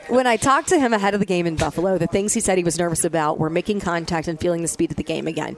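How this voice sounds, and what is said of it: Boston East Coast accent. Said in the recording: “that Boston, that East Coast accent”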